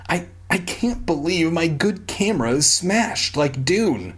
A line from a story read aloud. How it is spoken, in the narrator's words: he whimpered